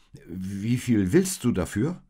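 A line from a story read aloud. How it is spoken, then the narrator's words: Hesitant. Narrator (German): sagte Josef zögernd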